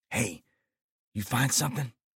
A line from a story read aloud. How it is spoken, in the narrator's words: I whispered